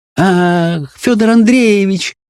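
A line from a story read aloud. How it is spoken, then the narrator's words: Joyful exclamation. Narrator (Russian): воскликнула она радостно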